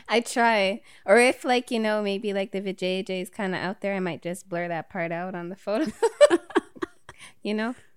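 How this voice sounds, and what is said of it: West Indian Tobagonian accent. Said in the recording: “It's a West Indian accent of some sort, right? ... Tobagonian ... the Bajan would have been a little bit more twangy”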